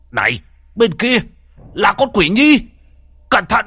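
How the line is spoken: Man shouting loudly. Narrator (Vietnamese): ông hét lớn

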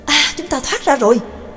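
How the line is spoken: Joyful exclamation. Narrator (Vietnamese): Nhạc Dương mừng rỡ thốt lên

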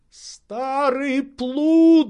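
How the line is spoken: Relieved shout. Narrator (Russian): закричал Легран с видимым облегчением

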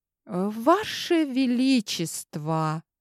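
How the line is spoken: Slow, measured. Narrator (Russian): медленно произнесла

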